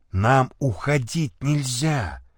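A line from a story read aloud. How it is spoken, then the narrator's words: Whispering. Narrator (Russian): прошептал Никитин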